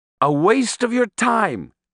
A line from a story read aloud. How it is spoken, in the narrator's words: he exclaimed, parodying my tone of voice